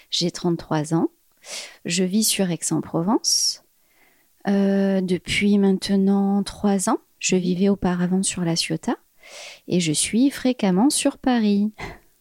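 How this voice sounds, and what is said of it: Lilting southern French accent. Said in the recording (French): “Avec ton petit accent chantant.”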